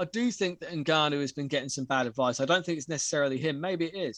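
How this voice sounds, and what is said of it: Usual voice. Nothing is said of it.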